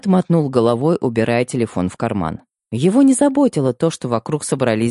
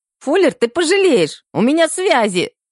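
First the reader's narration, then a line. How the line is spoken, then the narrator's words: Squeak, doctor. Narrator (Russian): пискнул доктор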